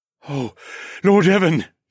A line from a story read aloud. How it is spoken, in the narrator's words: he gasped